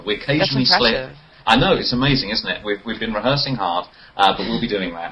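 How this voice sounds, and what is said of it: Put-on British accent, somewhat fake. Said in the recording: “people who have a British accent ... I'm just putting on for you guys ... trying to keep up this British accent ... I thought it was kind of fake”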